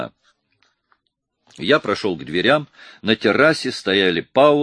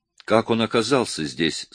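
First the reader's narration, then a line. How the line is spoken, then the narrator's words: Plain. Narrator (Russian): спросила Сирена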